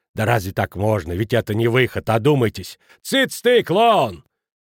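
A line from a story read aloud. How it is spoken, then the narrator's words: Harsh bark. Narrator (Russian): Рявкнул на него Кранер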